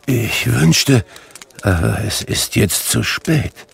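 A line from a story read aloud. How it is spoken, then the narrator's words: Murmuring. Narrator (German): murmelte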